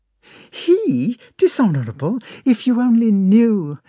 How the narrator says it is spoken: exclaimed Natasha

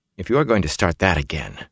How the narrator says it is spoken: Matt muttered

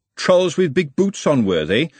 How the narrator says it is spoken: said Glenda, her voice all vinegar

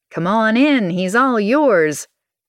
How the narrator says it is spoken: I'm about to shout

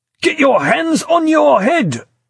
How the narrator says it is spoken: he shouted harshly, tension edging a voice he was, with some small success, struggling to control

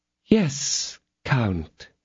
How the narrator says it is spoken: said her ladyship, in her sweetest tones

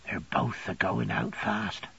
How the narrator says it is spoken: Peggotty whispered with much awe and reverence

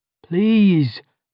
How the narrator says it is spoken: legit begged

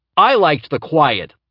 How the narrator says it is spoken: Laertes yelled from the other room

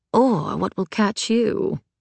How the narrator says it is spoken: Virginia murmured with a smile

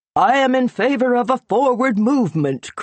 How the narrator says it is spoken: cried one

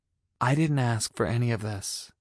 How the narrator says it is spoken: I said quietly

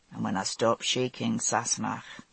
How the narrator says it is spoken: he said quietly

